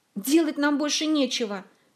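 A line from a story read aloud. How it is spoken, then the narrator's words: Angry snap. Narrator (Russian): сердито огрызнулся Мафей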